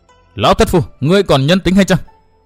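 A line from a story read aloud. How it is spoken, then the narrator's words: Furious loud shout. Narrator (Vietnamese): Văn Thiên Hào phùng mang trợn mắt hét to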